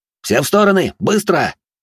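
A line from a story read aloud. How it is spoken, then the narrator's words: Barked shout. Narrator (Russian): рявкнул я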